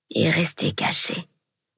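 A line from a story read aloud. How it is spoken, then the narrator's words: Group muttering. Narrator (French): marmonnèrent tous les autres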